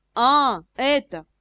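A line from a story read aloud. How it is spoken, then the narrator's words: Snorting. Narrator (Russian): Брэдли фыркнул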